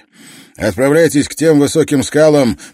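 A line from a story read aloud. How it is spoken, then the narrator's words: Shouting over engine roar. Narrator (Russian): прокричал профессор сквозь рев двигателя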